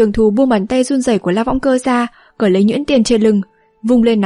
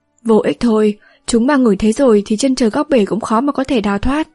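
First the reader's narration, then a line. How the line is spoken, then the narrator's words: Mournful sighing. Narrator (Vietnamese): thở dài não nuột nói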